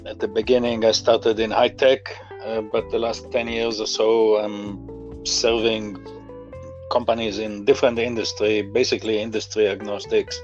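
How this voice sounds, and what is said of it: Israeli accent in English. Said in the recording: “you can hear from my accent, I didn't grow up in this country, I grew up in Israel”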